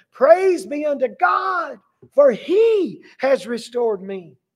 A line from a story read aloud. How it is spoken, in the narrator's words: he yelled for everyone to hear